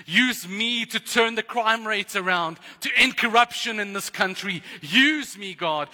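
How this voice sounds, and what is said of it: Excited shouting. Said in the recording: “I'm getting very excited. I'm sorry if I'm shouting”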